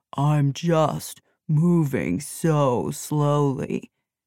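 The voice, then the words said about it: Mournful, gloomy drawn-out voice. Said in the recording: “in a lugubrious voice”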